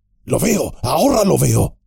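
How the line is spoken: Hissed. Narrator (Spanish): siseó Gimli

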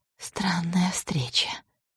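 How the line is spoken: Whisper. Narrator (Russian): шепнула Вера

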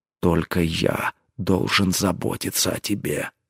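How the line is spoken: Jealous growl. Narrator (Russian): съедаемый ревностью рыкнул он

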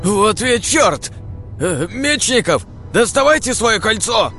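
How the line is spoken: Shouting. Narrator (Russian): закричал Владимир Павлов

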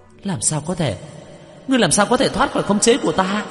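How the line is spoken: Terrified high-pitched cry. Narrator (Vietnamese): Nữ quỷ khuôn mặt khiếp sợ, cao giọng la lên

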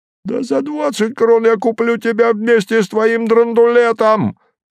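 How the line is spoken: Shrieking reply. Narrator (Russian): визжали в ответ

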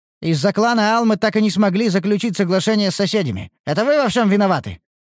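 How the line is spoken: Sharp scolding shout. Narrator (Russian): прикрикнул другой эльф

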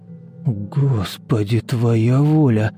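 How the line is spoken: Breathless exclamation. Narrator (Russian): выдохнул Владислав

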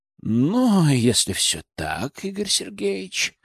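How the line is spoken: Sighing. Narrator (Russian): вздохнул Нейман

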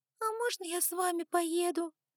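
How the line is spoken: Quiet squeak of little dragon. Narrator (Russian): Пискнула тихо, настолько, насколько позволял речевой аппарат маленького дракона

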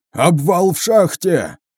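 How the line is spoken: Nervous panicked yell. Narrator (Russian): Завопил самый нервный из команды Сергея

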